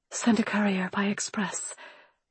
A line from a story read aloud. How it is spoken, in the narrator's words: I whispered